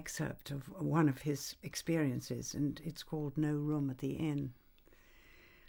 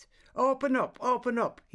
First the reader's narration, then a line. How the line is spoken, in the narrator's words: shouted loudly